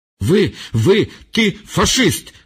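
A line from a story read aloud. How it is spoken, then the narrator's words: Stuttering, throat-straining shout. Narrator (Ukrainian): затинаючись і зриваючи горло, закричав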